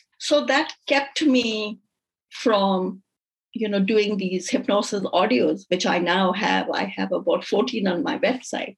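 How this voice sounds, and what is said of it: Indian-accented English. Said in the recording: “I'm from India. So I was very, very conscious about my accent ... I can't understand your accent”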